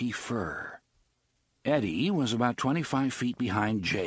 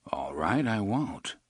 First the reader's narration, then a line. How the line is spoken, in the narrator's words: Roland murmured